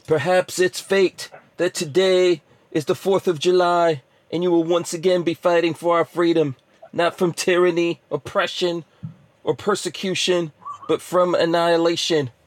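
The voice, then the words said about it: Imitates a movie president's voice. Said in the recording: “let's see if I could do a voice here... It's from President Whitmore.”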